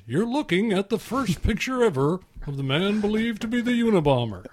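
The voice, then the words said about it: Imitates another person's voice. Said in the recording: “good impression”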